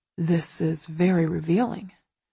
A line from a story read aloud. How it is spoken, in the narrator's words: he murmurs